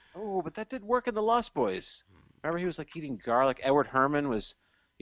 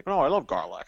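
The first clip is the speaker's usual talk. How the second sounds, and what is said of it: Edward Herman impression. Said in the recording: “my Edward Herman impression”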